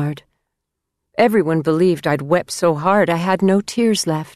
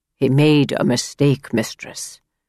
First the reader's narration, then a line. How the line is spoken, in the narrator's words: said gently in his hillman's rumble